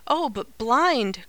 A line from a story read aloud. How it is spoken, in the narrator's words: cried the young voice, with a shudder